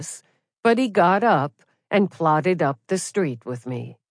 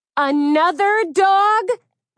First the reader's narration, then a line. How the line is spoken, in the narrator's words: Donna Lutis screamed